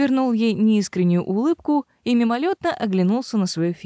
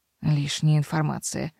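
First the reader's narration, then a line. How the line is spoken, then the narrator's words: Grumbling. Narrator (Russian): проворчала мэр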